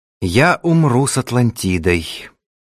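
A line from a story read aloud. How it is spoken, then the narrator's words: Calm reply. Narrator (Russian): спокойно ответил Ацрушану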